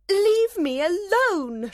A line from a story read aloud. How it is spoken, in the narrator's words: she cried